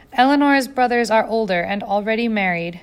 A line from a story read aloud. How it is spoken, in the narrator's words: Jane said, trying to keep her voice steady